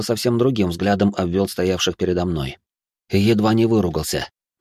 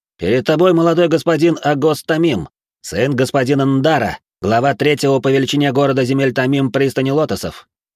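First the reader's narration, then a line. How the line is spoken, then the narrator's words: Impatient young man shouting. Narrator (Russian): Невысокий парень с артефактом, не дождавшись от меня ответа, крикнул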